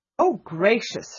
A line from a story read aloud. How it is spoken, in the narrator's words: she exclaimed